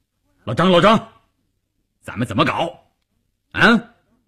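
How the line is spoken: Loud. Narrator (Chinese): 关山林撞进去就大声地说

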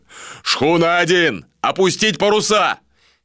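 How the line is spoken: Shouted command. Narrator (Russian): крикнул Иштар

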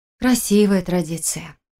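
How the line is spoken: Breathy exhale. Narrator (Russian): выдохнула я

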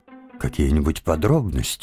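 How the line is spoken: Gentle request. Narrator (Russian): мягко попросил профессор

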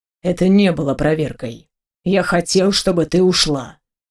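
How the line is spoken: Cold. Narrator (Russian): холодно произнес

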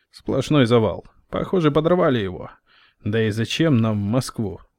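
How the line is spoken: Snorting chuckle. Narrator (Russian): хмыкнул Петрович

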